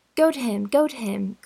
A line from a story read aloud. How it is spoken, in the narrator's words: cried Anne